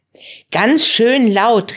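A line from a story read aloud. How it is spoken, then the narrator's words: Calling out. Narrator (German): rief Marie Freddy zu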